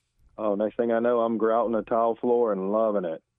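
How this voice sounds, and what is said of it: Sarcastic tone. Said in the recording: “I'm being sarcastic.”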